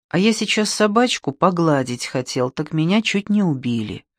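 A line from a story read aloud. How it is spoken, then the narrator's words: Sad. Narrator (Russian): печально прокомментировал издатель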